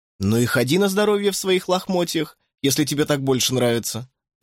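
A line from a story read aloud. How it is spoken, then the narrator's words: Laughing. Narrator (Russian): рассмеялся я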